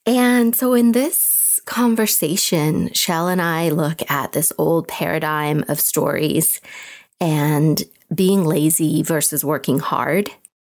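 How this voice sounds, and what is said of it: Slightly raspy voice. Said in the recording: “Excuse my voice today. I'm a little raspy.”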